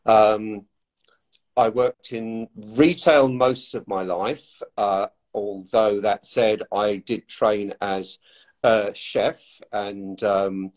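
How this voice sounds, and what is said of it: English accent. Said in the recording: “from the accent, you can tell that I obviously was born and raised in England”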